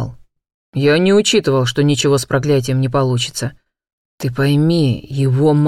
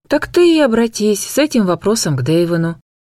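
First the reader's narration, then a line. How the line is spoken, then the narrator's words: Tired. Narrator (Russian): устало ответила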